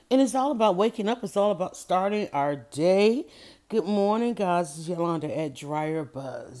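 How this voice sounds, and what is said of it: Sleepy, just-woken-up voice. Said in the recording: “You hear the sleep in my voice? There is sleep in my voice”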